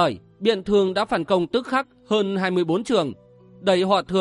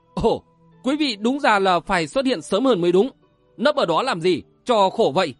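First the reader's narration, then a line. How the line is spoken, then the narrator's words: Laughing loudly. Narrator (Vietnamese): Ngũ Nhạc Nhất Kiếm cười to lên nói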